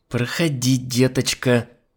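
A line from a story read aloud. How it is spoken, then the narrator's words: Through gritted teeth. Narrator (Russian): процедила сквозь зубы Альбина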